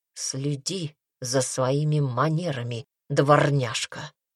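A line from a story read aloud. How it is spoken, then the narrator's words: Whisper in ear. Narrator (Russian): прошептал он ей на ухо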